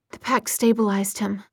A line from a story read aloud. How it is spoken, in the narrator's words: Jocelyn was saying in an exhausted voice